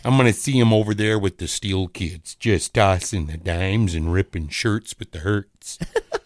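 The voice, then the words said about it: Put-on Chicago accent. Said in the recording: “That's a good Chicago accent.”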